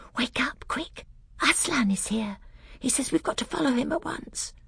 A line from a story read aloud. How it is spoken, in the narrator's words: she whispered in his ear